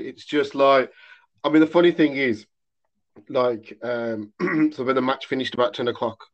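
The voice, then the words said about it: Slightly hoarse voice. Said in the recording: “my voice here, I don't know if you can tell, my voice is still a bit, ... it's a bit hoarse. ... Yeah, that's the word.”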